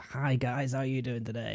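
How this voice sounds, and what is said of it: Poor imitation of American YouTuber voice. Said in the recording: “comes from America ... That's a terrible impersonation.”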